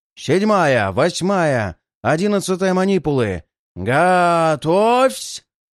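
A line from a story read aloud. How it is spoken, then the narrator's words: Strained roar. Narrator (Russian): Надрывно проревел трибун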